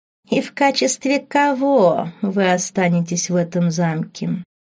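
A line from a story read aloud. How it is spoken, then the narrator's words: Snide question, bishop. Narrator (Russian): ехидно спросил епископ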